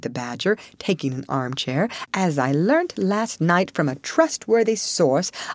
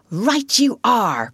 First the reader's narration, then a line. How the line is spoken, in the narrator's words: cried the rat, starting up